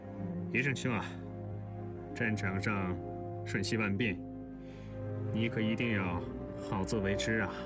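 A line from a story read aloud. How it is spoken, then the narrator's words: Soft sigh, cautioning. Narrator (Chinese): 他只能轻轻地叹口气，嘱咐傅作义说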